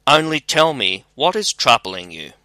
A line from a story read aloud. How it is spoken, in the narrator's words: kindly by the hand and said